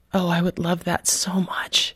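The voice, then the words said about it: Very soft voice. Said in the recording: “in this very soft voice”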